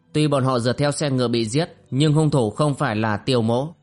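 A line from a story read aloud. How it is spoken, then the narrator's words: Agitated, impatient loud shout. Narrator (Vietnamese): Tiêu Lĩnh Vu trong lòng khích động, chàng nóng nảy lớn tiếng la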